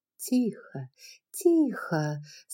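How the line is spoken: Calm. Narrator (Russian): спокойно произнесла бы она

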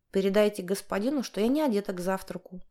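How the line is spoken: Angry shout. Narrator (Russian): злобно кричит Вера

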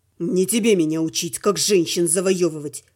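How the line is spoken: Hissed through clenched teeth. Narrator (Russian): прошипел сквозь стиснутые зубы Слава

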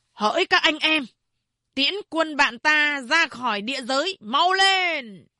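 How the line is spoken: Loud command. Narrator (Vietnamese): Ông ta lớn tiếng ra lệnh

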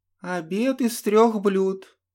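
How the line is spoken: Obliging sexy female voice. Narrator (Russian): услужливо сообщила та довольно сексуальным женским голосом

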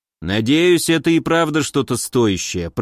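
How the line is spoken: Grumbled. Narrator (Russian): проворчал он

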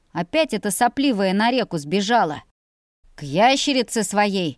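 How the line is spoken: Father barking angrily. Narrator (Russian): Рявкнул папенька еще злей

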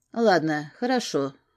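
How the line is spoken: Displeased tone. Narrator (Russian): наконец заговорил он недовольным тоном

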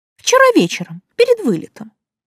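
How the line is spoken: Indignant correction. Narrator (Russian): возмущенно поправила

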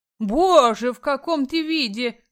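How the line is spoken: Exclamation. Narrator (Russian): Воскликнула

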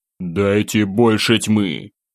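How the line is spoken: Growled. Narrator (Russian): рыкнул я

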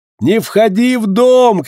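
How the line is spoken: Shouting. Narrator (Russian): кричали Утлару

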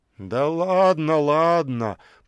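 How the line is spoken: Grumble. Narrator (Russian): пробурчал тот

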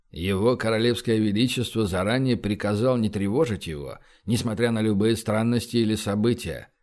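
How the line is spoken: Grim, bodyguard. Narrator (Russian): мрачно добавил телохранитель

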